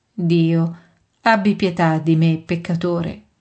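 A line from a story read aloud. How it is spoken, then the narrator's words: Humble moaning plea. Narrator (Italian): Un povero pubblicano geme umilmente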